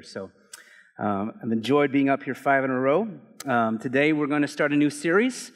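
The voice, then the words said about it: Strained, gravelly worn-out voice. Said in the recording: “My voice is being stretched. I don't know if you hear it in my voice, ... in my head I sound like the Marlboro Man”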